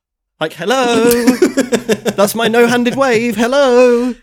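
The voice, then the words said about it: Shouted, vibrating, wobbly hello. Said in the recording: “My impression that I was doing there when I was shouting hello ... like imitating a fish on dry land ... Just sort of vibrating vigorously.”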